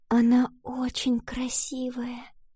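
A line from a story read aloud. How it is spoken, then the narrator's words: Reverent whisper. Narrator (Russian): с благоговением прошептала Валентина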